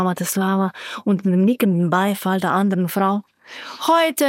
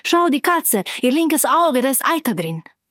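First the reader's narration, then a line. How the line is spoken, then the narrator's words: Calling out. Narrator (German): rief Carmela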